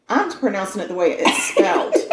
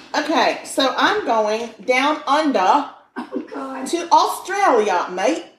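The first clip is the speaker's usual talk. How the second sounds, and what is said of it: Put-on Australian accent. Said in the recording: “I mean, that's a really good accent right there, don't you think? ... That's how they sound. Australia, mate.”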